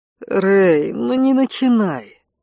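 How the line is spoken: Groaning, suppressing laughter. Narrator (Russian): простонал Конт, едва сдерживая смех

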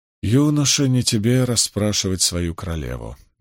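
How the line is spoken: Gentle but firm. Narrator (Russian): мягко, но твердо ответила Моргейс

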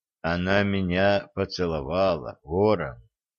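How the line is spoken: Quiet. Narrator (Russian): тихо сказал Олег

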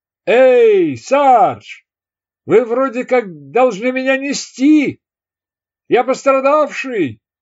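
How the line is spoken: Shouting after someone. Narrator (Russian): крикнул ему вслед лейтенант Гейгер

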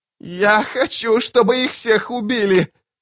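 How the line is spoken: Broken-voiced shout. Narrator (Russian): надломленным голосом крикнул Анастер

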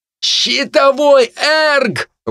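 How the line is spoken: Shouted into ear. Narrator (Russian): выкрикнул мне в ухо Хенниган

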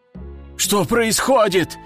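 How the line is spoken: Exclaiming fighter. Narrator (Russian): воскликнул боец

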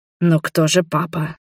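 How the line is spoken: Puzzled whisper. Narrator (Russian): недоумевающе прошептал Роберт

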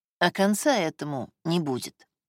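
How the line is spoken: Calm and simple. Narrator (Russian): сказал он спокойно и просто

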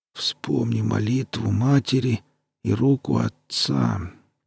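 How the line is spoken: Muttered. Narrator (Russian): пробормотал Таша

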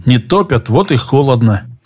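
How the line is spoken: Said through teeth. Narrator (Russian): процедил Олег

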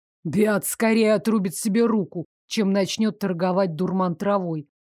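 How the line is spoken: Snort under breath. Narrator (Russian): фыркнул себе под нос Дейк

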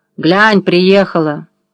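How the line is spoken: Deliberately loud bark. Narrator (Russian): Одна нарочно громко гаркнула

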